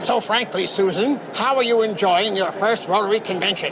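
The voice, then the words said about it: Imitates another person's voice. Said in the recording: “that was my imitation of Clark Gable”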